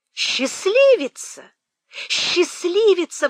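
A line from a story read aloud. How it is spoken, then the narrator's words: Breathless amazed exclamation. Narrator (Russian): воскликнула Мэри, едва к ней вернулся дар речи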